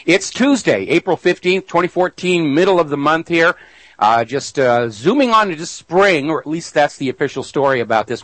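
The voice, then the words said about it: Raspy, hoarse voice. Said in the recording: “Pardon me, my throat is raspy. ... I got allergies this morning”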